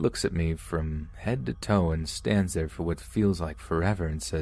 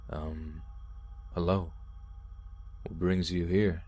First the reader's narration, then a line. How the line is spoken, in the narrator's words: His tone very blank and not giving anything away